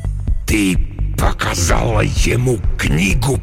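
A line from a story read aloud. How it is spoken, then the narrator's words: Hissing. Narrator (Russian): прошипел Декарнатус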